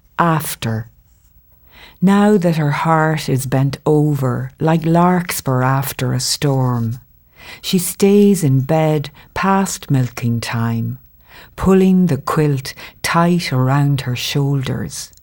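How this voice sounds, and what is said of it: Irish accent. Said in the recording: “who has come from Ireland ... say hello in that beautiful accent”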